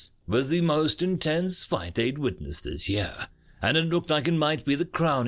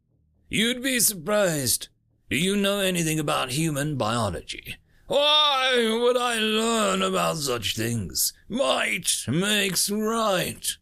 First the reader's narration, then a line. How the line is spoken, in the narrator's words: Draken shouted loudly, the crowd cheering him on